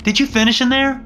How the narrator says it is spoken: she shouted

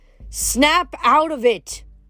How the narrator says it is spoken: she yelled

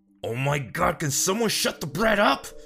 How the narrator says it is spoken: Justin snapped

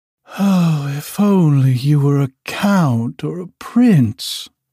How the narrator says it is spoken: she sighed

